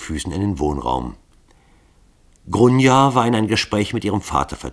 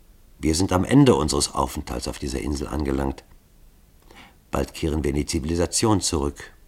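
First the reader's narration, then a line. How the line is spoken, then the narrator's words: Softly trembling voice. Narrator (German): seine Stimme bebte leise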